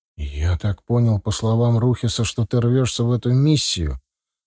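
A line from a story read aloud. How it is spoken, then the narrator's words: Resigned sigh. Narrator (Russian): вздохнул полковник, поняв, что я не дам ему отделаться деньгами или еще какой-то ерундой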